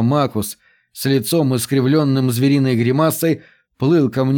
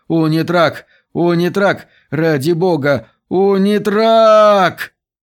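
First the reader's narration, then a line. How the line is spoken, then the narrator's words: Frightened moan. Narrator (Russian): Поющая скала застонал, перепуганный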